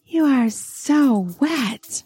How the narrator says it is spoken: she says breathlessly

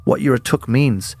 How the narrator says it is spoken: her grandmother continued calmly

